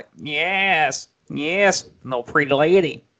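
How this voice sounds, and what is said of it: Imitates another person's voice. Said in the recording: “his voice, you're like ... That's a terrible Otis impersonation.”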